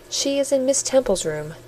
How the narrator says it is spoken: said the nurse

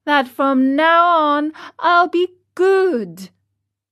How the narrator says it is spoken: answered the marionette, sobbing

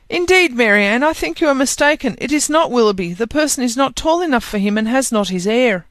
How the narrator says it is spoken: Elinor cried out

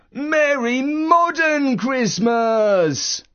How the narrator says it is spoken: Uncle Christmas, who got massively overexcited and shouted

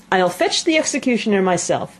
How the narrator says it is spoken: said the king eagerly

